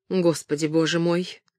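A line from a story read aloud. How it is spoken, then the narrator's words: Whisper. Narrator (Russian): Кэтрин прошептала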